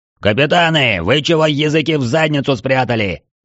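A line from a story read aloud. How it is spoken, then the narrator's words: Sudden loud bellow. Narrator (Russian): вдруг гаркнул Трайнул на весь зал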